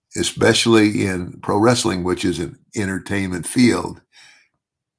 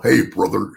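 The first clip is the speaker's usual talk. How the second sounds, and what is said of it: Hulk Hogan impression. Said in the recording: “Hulk Hogan ... the Hulkster ... that was a pretty good impression.”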